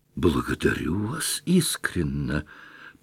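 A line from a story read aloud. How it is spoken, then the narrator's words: Heartfelt voice. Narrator (Russian): проникнутым голосом произнес Кармазинов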